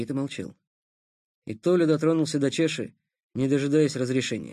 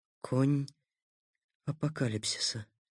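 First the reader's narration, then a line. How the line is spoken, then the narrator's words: Trembling whisper. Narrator (Russian): прошептал он с дрожью в голосе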